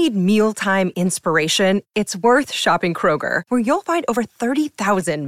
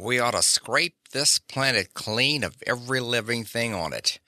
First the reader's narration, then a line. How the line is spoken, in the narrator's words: muttered Umbo Stetson, Section Chief of Investigation and Adjustment